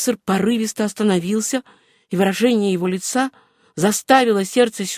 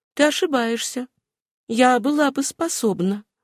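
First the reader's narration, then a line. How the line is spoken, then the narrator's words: Calm reply. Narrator (Russian): Сюзанна спокойно ответила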